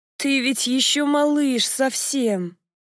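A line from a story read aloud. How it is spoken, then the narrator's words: Moaning. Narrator (Russian): простонала я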